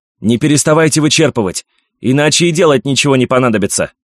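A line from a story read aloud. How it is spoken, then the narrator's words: Shouting. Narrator (Russian): крикнул Луис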